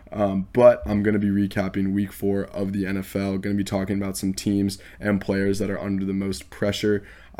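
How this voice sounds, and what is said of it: Unwell, rough-sounding voice. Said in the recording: “I am a little bit under the weather, so bear with me. ... My voice is not sounding great at all.”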